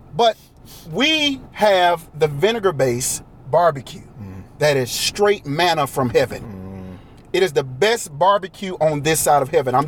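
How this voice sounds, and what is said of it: Eastern North Carolina Southern accent. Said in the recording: “I am from Eastern North Carolina. Can you hear the accent? Mm. You will hear the accent”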